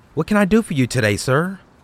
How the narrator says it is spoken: I asked

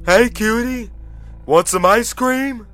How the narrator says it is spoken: The driver called out

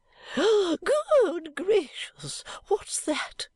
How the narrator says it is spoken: cries Volumnia with her little withered scream

